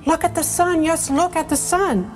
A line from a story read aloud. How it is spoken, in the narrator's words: cried Mrs